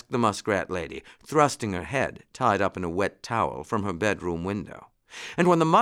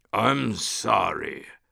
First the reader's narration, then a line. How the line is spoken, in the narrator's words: rumbled the lion as gently as he could